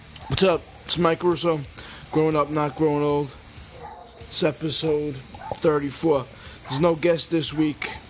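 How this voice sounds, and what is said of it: Sick-sounding voice. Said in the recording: “I'm feeling kind of sick, a little under the weather this week, as you can tell by my voice.”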